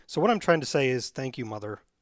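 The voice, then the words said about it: Choked-up, emotional voice. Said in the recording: “I was getting a little choked up there.”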